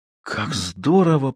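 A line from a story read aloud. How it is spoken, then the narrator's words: Whisper. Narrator (Russian): прошептала она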